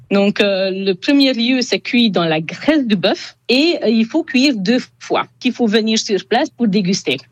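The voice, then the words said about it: Slight Hungarian accent in French. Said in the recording (French): “son petit accent, qui est hongroise”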